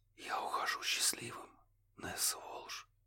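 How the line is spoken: Numb-lipped whisper. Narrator (Russian): прошептал Курт, не чувствуя собственных губ

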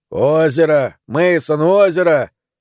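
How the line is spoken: Shouting. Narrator (Russian): Дэн закричал

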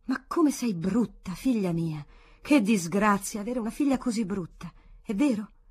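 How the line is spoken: Exclaimed. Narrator (Italian): questa esclamava

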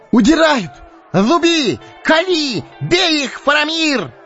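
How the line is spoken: Shouting, cut off abruptly. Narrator (Russian): Вдруг он смолк на полуслове, коротко вскрикнул

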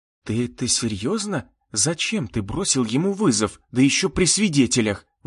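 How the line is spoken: Indignant whisper. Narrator (Russian): возмущенно шептала девушка

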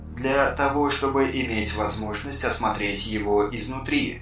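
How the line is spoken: Plain. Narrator (Russian): ответил Эзоп

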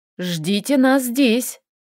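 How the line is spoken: Stern. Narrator (Russian): строго произнесла Лиля

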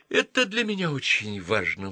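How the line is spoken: Pleading. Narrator (Russian): взмолился Дункан

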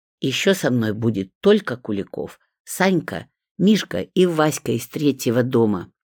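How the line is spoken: Heated snapping retort. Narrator (Russian): запальчиво огрызнулась Светка

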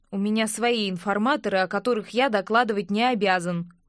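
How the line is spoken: Snapping retort. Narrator (Russian): огрызнулся Винсент

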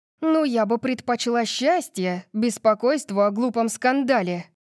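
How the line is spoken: Snapping retort. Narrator (Russian): огрызнулась я

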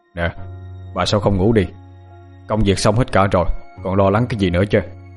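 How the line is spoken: Sighing man. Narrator (Vietnamese): Ông Tân thở dài nói giọng vô

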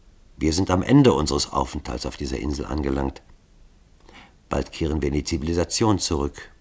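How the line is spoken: Softly trembling voice. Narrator (German): seine Stimme bebte leise

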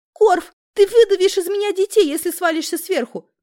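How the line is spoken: Squeaking while struggling. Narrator (Russian): пискнула я, пытаясь выкрутиться из крепкого захвата жадных мужских рук

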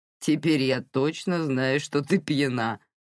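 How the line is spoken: Laughing declaration. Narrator (Russian): расхохотавшись, заявил Сэл

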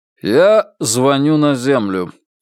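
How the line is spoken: Gruff mutter. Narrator (Russian): буркнул Игорь Алиенарьевич

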